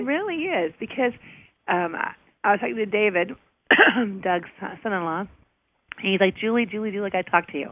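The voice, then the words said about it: Hoarse, partly lost voice. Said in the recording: “I lose my voice a little bit ... No matter how vocal-free it sounds right now”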